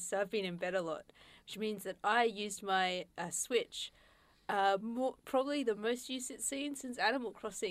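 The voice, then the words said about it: Voice sounds ill. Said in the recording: “I have been recovering from an illness, as you can probably tell by my voice.”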